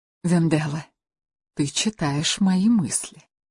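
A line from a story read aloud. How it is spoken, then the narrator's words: Conspiratorial whisper. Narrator (Russian): заговорщицки прошептала Луиза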